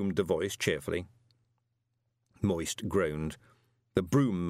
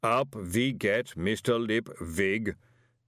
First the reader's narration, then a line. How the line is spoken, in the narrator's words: said the booming voice